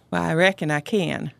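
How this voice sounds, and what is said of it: Put-on Southern accent. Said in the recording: “that's the Southern accent”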